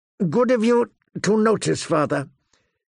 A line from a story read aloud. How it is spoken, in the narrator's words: he said through clenched teeth